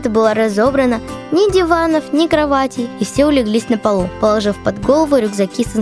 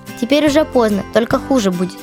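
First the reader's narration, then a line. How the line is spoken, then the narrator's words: Plain. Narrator (Russian): сказал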